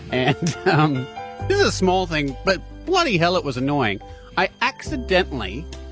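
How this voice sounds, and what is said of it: Usual voice. Nothing is said of it.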